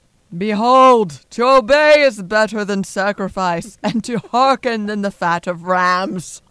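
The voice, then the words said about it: In-character voice of biblical prophet. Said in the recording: “This will be another in-character one ... That sounds just like Samuel ... my impersonations ... that was pretty good ... That was right on”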